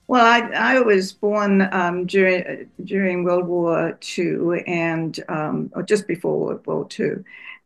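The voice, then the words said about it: Distinctive non-American English accent. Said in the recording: “You have that distinctive non-American accent ... back in England”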